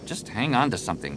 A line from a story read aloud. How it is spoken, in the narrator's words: Jason muttered